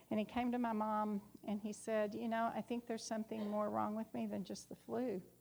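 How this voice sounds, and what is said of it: Texas accent. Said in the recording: “Amarillo, Texas. That's the accent.”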